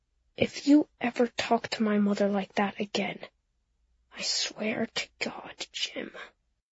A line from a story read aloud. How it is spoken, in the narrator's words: she said in a very quiet voice